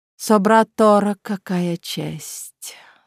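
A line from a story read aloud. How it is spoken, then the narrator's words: Languid sarcastic drawl. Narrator (Russian): с томным сарказмом протянул Лорент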